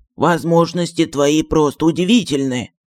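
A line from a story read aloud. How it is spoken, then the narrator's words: Whisper. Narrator (Russian): прошептал Джин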